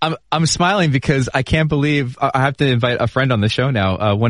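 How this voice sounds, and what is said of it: Usual voice. Nothing is said of it.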